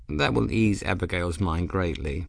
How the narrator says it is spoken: Bayard said

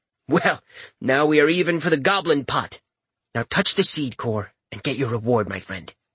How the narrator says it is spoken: the sprite said

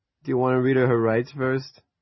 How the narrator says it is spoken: Mel asked and laughed

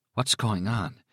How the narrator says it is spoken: she asked in a strengthless whisper

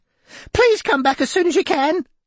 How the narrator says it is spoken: screamed Denise

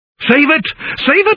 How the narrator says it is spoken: I cried

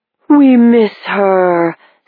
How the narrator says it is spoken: said one of the faces, the voice a little familiar, but disped into a weird, ghostly, echoing moan

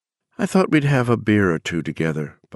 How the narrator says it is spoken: Bobby said evenly

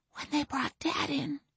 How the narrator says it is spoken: she whispered to her knees

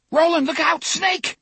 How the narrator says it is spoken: Cuthbert screamed

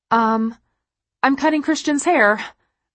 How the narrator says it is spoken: I blurt out, embarrassed

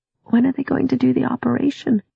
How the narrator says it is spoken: asked a little sleepily

